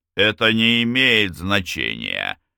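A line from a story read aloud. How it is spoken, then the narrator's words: Growl. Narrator (Russian): прорычал мертвый юноша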